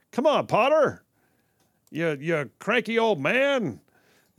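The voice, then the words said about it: Jimmy Stewart impression. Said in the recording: “impersonations of Jimmy Stewart”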